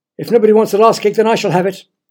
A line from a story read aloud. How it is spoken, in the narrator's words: shouted Peter